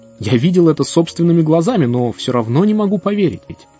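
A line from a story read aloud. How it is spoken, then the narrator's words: Exclamation. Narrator (Russian): он воскликнул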